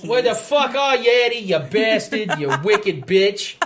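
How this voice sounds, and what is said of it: Put-on Boston accent. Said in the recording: “talking like a Bostonian.”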